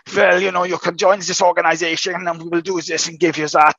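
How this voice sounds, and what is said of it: Put-on German accent. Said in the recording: “that's my German accent”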